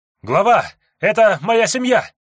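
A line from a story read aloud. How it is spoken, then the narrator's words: Shouted from the back. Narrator (Russian): выкрикнул с задних рядов следопыт, едва завидев свою жену и ребенка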